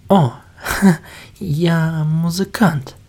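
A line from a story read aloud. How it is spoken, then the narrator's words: Drawling. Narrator (Russian): протянула я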